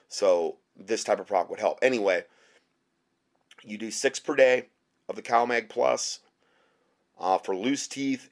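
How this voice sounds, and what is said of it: Hoarse, nearly lost voice. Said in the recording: “my voice is just like, I know you're probably cringing, but it's like totally gone”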